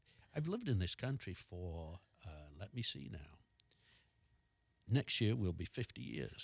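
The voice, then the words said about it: Mild British, mid-Atlantic accent. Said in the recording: “you do have an accent... it's not Cockney, you know, it's not real profound, but it's there... It's kind of mid-Atlantic... he completely has a British accent”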